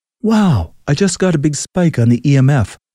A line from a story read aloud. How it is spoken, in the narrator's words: Carl excitedly whispered